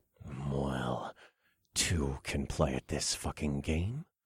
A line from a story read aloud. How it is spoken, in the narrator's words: I growled as my mouth went dry